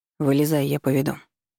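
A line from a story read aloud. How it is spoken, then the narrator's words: Calm. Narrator (Russian): спокойно сказал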